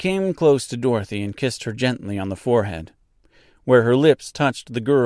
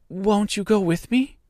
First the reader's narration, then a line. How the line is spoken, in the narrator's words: pleaded the girl, who had begun to look upon the little old woman as her only friend